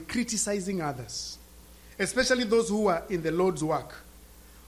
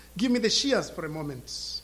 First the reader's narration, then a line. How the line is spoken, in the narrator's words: said Wesley